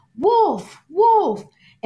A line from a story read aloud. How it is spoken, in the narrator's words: he'd often yell out